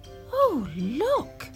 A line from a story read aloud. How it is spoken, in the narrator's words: cried Jill